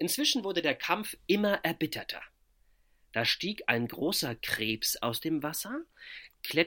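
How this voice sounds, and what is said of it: Usual voice. Nothing is said of it.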